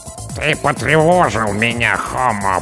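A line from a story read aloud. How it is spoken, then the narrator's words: Creaking voice. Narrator (Russian): проскрипела командная голова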